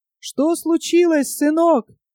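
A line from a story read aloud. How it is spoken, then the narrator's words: Fisherman's shout. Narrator (Russian): крикнул рыбак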